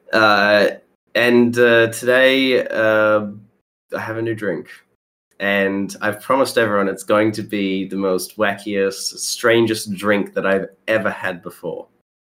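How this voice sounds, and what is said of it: Nasal congested voice. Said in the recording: “I sound a bit nasally ... I have been a bit sick over the last couple days”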